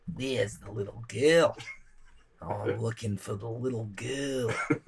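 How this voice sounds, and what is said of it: Imitates another person's voice. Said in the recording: “Can you do a David Bowie Labyrinth impression?”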